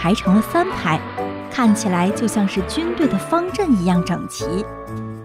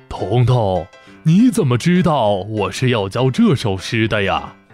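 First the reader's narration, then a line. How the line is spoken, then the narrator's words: Surprised, smiling old man. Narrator (Chinese): 老先生惊讶地，笑着点头说道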